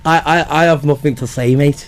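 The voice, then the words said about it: Put-on Liverpool accent. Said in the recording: “That's a good accent. ... He's very good at his accent.”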